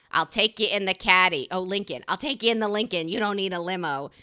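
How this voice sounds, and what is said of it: Imitates another person's voice. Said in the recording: “not a good impression”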